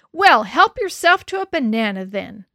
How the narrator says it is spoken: I yelled through the doorway

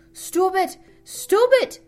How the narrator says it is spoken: screeched

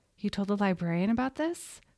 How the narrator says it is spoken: Katrina said

